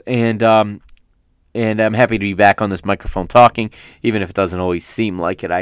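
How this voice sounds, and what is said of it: Strained, worn-out voice. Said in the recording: “That's all I've got a voice for today... Hopefully my voice is able to do that.”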